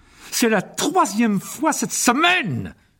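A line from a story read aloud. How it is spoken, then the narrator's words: Yelling. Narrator (French): hurlait-il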